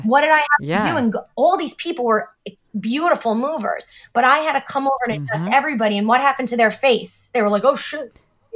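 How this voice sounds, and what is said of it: New Jersey accent. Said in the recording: “Your accent, I love it. ... I'm from New Jersey.”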